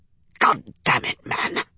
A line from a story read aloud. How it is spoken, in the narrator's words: hissed